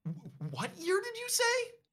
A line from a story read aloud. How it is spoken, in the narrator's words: You sputter